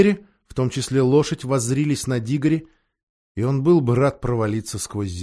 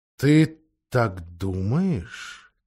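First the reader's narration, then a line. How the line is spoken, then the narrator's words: Quiet question. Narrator (Russian): тихо спросил лев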